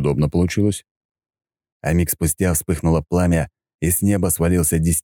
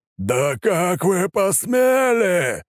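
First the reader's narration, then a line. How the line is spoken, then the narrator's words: Divine shouting. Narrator (Russian): кричало божество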